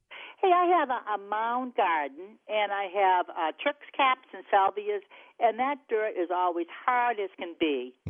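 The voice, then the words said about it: Noticeable regional American accent. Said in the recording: “That's a great accent.”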